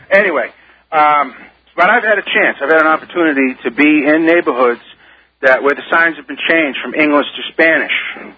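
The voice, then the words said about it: Boston accent. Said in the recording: “I used to live up there in Boston and all that, so that's why my accent doesn't fit West Virginia”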